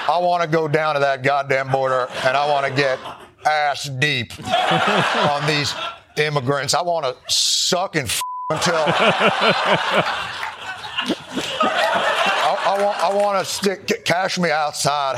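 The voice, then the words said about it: Imitates another person's voice. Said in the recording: “my dirty Phil impression”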